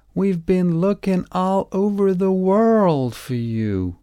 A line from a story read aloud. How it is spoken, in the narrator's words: shouted